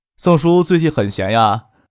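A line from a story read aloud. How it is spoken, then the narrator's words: Cheerful, laughing. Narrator (Chinese): 张克笑着说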